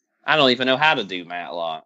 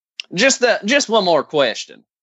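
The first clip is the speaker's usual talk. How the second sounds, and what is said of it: Attempted Columbo impression. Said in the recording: “That was my attempt at a Columbo, but it doesn't work with the accent I got right now.”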